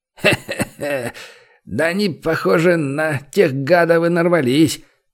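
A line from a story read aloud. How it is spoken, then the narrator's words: Laughing. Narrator (Russian): Рассмеялся он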